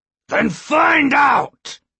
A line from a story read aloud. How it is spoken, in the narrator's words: Skema shouted